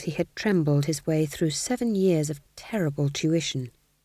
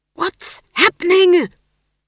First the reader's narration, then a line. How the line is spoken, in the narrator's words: he hissed